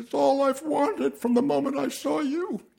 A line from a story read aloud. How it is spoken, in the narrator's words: sobbing